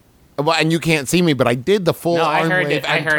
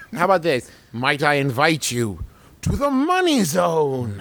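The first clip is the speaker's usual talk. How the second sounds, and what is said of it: Theatrical warlock-like character voice. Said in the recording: “That was way better. You sound like a warlock.”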